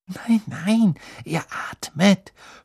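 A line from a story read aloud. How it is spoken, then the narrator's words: Whispered. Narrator (German): flüsterte Hermine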